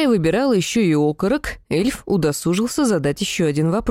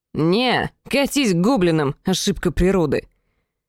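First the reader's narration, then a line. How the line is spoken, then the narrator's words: Displeased elf voice. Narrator (Russian): недовольным голосом эльфа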